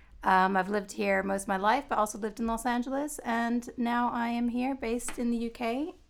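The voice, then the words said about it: English speaker with American accent. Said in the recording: “I'm English with an American accent.”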